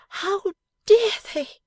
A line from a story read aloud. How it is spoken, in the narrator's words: she cried at length, in a burst of generous indignation